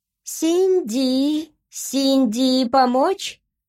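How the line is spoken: Squeaky creature. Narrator (Russian): пропищало существо

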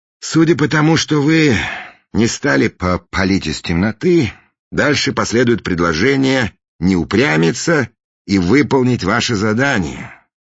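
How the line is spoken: Sighing. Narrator (Russian): вздохнул Фандорин

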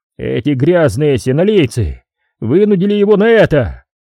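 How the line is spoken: Barked. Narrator (Russian): рявкнул он

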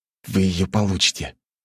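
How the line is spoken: Forced out. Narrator (Russian): выдавил он

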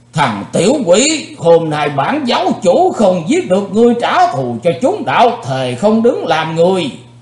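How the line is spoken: Loud furious roar. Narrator (Vietnamese): âm ma giáo chủ đã gầm to lên

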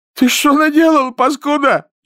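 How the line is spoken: Near-tearful shout. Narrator (Russian): чуть не плача закричал лейтенант

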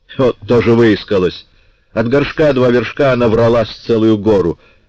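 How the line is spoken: Trader exclaiming. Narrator (Russian): воскликнул торговец

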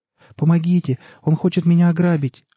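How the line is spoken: Young woman pleading. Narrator (Russian): взмолилась девушка

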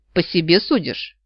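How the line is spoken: Man snorting. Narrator (Russian): фыркнул мужчина

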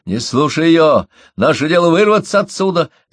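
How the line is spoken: Excited shout. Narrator (Russian): закричал возбужденно Мои

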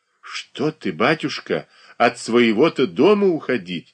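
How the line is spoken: Exclaim. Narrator (Russian): воскликнула Марья Дмитриевна

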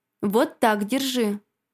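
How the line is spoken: Commanding tone. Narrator (Russian): командирским тоном распорядилась Инга

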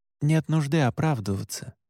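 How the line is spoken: Gentle. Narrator (Russian): мягко сказал я

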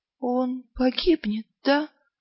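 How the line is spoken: Quiet whisper. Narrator (Russian): тихо прошептала Ангва

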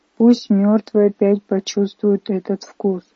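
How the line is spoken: Muffled muttering. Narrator (Russian): глухо бормотал он

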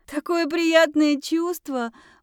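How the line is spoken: Speaking through laughter. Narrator (Russian): произнесла сквозь смех

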